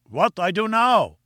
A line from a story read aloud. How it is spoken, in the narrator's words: cried